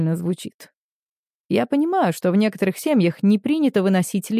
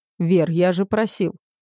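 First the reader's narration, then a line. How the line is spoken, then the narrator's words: Irritated. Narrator (Russian): говорю раздраженно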